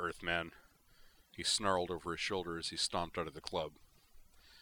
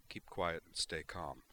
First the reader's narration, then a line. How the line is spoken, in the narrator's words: he murmured to her